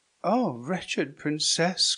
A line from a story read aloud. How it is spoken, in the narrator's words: cried Isabella